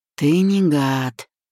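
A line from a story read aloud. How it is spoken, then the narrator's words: Sighing, tossed over shoulder. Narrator (Russian): вздохнул, бросил через плечо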